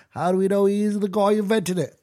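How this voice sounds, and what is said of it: Badly done put-on accent. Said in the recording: “That was a horrible accent.”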